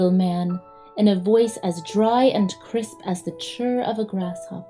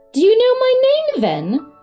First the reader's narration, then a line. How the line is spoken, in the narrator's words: cried Toinette, astonished